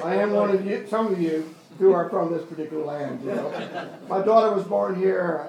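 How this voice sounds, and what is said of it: American accent. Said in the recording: “I come from the United States. Whether you do it or not, my accent.”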